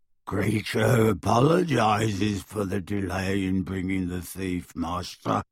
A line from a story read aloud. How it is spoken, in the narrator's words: croaked the elf